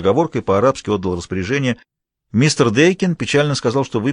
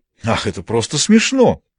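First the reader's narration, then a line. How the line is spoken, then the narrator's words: Exclaimed. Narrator (Russian): воскликнул Маркус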